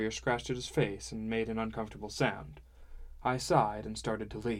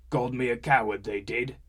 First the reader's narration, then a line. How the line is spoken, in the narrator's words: said thickly